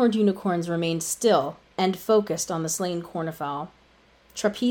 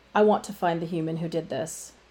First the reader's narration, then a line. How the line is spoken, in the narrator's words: she said calmly, with no change in her pleasant but serious facial expression